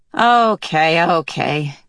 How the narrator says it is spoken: Calvin sighed

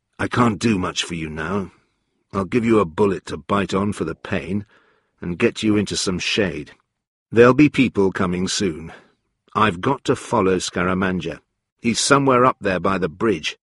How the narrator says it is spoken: said softly

